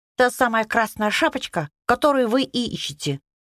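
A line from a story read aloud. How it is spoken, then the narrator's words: Squeaky bunny voice. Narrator (Russian): пропищал зайчик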